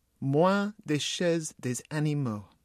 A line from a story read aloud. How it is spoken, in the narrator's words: said slowly